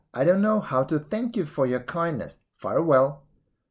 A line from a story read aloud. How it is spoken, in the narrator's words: he exclaimed